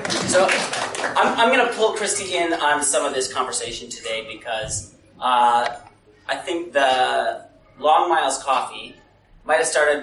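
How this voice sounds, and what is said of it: American accent. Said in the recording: “my accent might give it away. I'm from a little further west than Durban. We're actually from the United States.”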